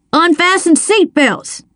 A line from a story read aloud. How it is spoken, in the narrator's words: he yelled